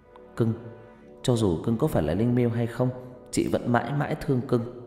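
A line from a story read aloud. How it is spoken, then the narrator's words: Whisper. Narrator (Vietnamese): Huyền thì thầm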